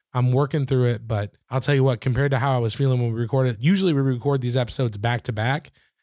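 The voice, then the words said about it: Slightly gravelly, recovering hoarse voice. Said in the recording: “my voice is kind of back ... you actually sound human again ... It's half human. I've still got a little gravel”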